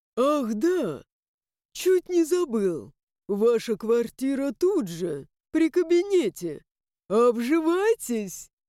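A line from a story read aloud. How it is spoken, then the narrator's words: Guffawing. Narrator (Russian): И захохотал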